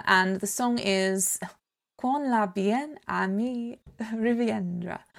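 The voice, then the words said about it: French title in Italian accent. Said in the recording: “I'm doing that with an Italian accent”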